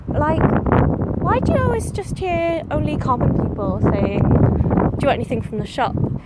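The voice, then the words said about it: Welsh English (Wenglish) accent. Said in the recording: “I think that was a Wenglish accent there.”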